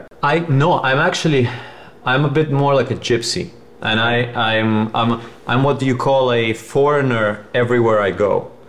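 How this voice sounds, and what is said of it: Speaks with a slight foreign accent. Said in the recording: “I have an, a bit of an accent in every language that I speak ... I still have an accent”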